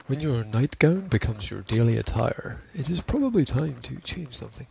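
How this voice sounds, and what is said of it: NPR radio announcer voice. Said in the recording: “That's my NPR voice... I could do those voiceover things”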